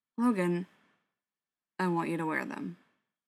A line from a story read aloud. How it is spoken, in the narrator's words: said gruffly